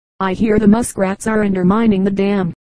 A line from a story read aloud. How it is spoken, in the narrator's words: the acquaintance said